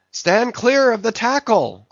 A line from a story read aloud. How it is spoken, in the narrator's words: cried a voice like the bursting of a rocket